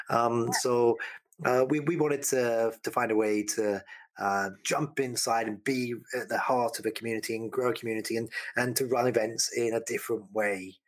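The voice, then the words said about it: Non-Canadian accent. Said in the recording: “my accent is not a Canadian one”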